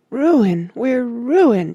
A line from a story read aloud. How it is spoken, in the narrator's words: she sobbed